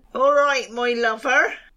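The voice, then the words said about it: Put-on Bristol accent. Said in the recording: “That's a Bristol goat, is it? ... That's the only accent I can do”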